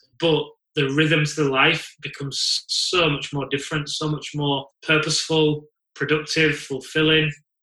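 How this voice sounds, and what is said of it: Leeds English accent. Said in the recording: “you're in Leeds because you've got a funny accent like me”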